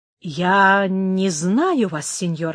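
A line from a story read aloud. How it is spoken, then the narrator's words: Plain. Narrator (Russian): ответил он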